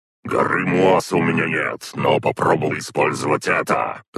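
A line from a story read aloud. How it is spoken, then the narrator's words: Growled. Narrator (Russian): Рыкнула Зарет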